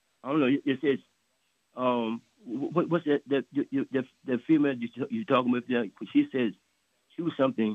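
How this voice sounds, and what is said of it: Heavy accent, hard to understand. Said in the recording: “I cannot understand a word you're saying ... You have too much of an accent.”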